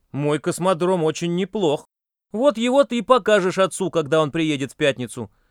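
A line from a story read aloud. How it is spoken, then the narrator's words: Snapping retort. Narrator (Russian): огрызнулся Юрик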